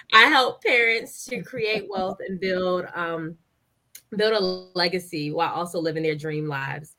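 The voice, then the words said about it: Voice roughened by a cold. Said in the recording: “excuse my voice, I'm trying not to come down with a cold.”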